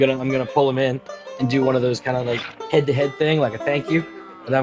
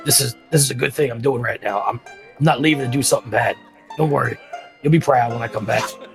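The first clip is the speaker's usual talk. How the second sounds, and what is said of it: Whispering. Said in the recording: “I'm gonna like whisper to him”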